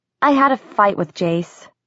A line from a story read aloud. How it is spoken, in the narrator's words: said, trying to keep her voice even